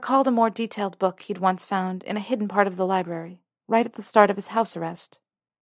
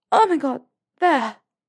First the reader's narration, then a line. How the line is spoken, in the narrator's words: she gasped